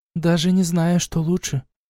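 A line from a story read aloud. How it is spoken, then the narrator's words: Sighed. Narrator (Russian): вздохнула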